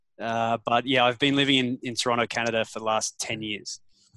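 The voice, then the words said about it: Australian accent. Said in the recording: “You obviously have an Australian accent”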